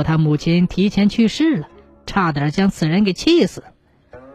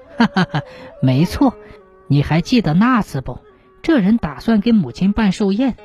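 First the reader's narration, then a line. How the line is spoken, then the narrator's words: Laughing. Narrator (Chinese): 那书生呵呵的笑起来，说道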